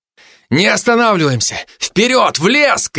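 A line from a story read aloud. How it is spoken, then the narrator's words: Shouting while running. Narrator (Russian): кричал я на бегу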